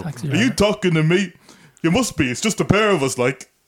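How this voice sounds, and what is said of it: Imitates another person's voice. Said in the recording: “my world-famous Robert De Niro impression ... I can do the voice as well ... That's Robert De Niro ... Sounds happier. I'm from Cork.”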